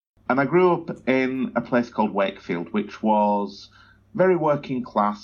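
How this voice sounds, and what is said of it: Northern English Yorkshire accent. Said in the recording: “I grew up in the north of England, in Yorkshire, so I'm clearly not an Aussie local, my accent kind of gives that away”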